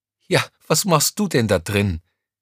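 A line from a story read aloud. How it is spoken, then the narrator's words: Still laughing. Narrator (German): Noch immer lachend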